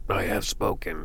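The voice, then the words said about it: Imitates another person's voice. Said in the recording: “That was not a good Nick Nolte impression,”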